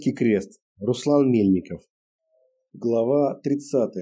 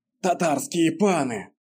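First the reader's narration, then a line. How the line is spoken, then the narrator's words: Through clenched teeth. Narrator (Russian): процедил дядька Адам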